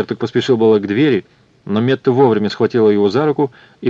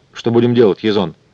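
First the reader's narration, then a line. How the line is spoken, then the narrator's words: Calm question. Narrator (Russian): спокойно спросила она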